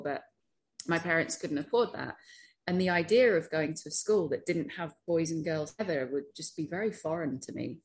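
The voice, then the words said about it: British accent. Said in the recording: “as my accent might belie, I'm British.”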